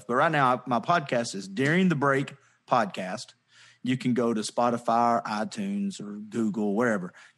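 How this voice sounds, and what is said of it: Southern American accent. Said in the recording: “You have that Southern accent during the break, not daring the break.”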